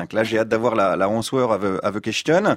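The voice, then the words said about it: Poor French-accented English. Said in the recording (French): “j'ai un accent pourri aussi. En cours d'anglais, on m'appelait Jean-Pierre Raffarin.”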